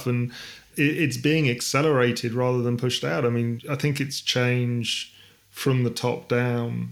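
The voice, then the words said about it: Accent from across the Atlantic. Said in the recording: “as you can hear from the accent, I'm the other side of the Atlantic”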